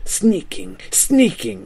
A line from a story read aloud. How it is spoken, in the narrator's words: he hissed